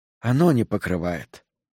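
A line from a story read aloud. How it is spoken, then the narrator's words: Sighing. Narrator (Russian): вздохнул Сол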